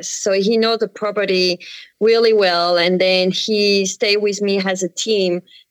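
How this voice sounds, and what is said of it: French accent. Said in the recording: “you may hear with my accent, I come from France”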